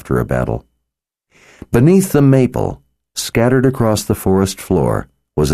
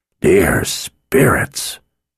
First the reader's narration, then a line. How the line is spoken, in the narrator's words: the blacksmith whispered